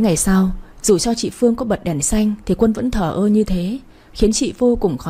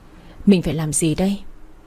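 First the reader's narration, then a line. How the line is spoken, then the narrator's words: Sighing. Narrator (Vietnamese): Chị thở dài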